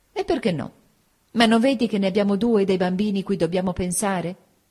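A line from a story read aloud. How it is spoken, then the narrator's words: Eager exclamation. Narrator (Italian): nel mio nuovo altruismo esclamai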